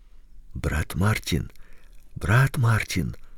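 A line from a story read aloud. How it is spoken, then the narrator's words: Warning whispers, crowd. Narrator (Russian): предупредительно зашептали в передних рядах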